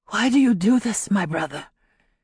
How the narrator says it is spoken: he whispered when out of earshot of the white soldiers

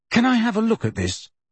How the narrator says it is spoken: Harry asked Luna eagerly

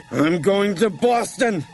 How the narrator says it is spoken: he shrieked

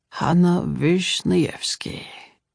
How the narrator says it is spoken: he murmured

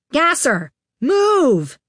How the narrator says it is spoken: Iggy yelled from 20 feet above him

